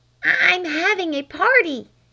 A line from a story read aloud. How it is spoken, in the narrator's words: hissed Flame through the keyhole